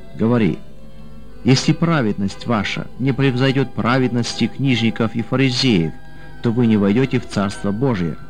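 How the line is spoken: Plain. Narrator (Russian): сказал Василий

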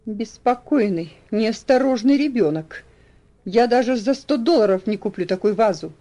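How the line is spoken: Exclamation. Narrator (Russian): воскликнул он

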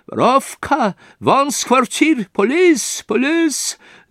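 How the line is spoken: Scream. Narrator (Russian): завопила Амалия Ивановна

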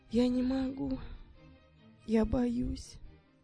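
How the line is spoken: Quiet. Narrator (Russian): тихо сказал он

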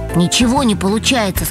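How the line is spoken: Plain. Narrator (Russian): сказал Кирилл

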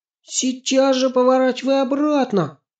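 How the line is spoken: Frightened shout. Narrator (Russian): испуганно закричала Аня

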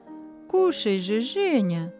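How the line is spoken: Gentle coaxing. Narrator (Russian): ласково уговаривали его хозяева

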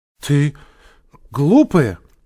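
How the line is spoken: Frightened shout. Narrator (Russian): испуганно закричала Женя

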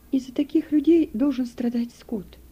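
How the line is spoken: Low-voiced woman. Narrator (Russian): вполголоса проговорила она

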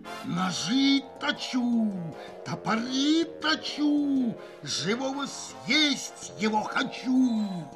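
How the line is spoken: Pig's frightening voice from underfloor. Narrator (Russian): А свинья из-под пола страшным голосом

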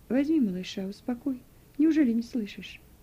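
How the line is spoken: Calm. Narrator (Russian): спокойно сказала Вера

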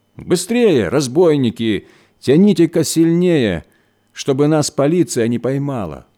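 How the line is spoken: Shouting. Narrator (Russian): кричал он

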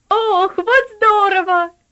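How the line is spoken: Excited child's exclamation. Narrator (Russian): воскликнул Артур, 10-летний проказник

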